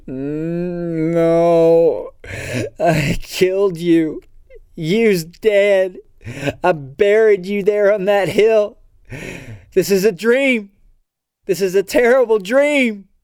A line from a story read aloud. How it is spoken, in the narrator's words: Moaning in near collapse with terrible fright, Kaylee mumbles